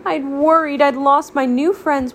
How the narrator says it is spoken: Waffle wailed

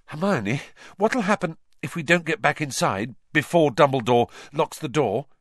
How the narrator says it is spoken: Harry panted

